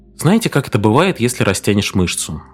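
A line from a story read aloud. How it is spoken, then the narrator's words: Calm, patient doctor. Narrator (Russian): доктор Берли говорил спокойно, вразумительно, словно обращаясь к ребенку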